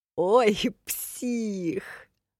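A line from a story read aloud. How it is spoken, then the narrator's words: Joyful laughter. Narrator (Russian): радостно засмеялся Комдор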